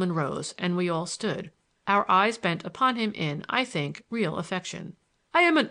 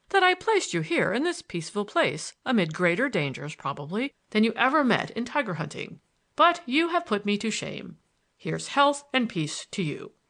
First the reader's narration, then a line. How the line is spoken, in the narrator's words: laughed